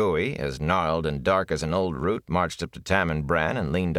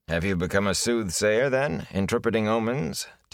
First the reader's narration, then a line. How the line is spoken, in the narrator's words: Tam asked dryly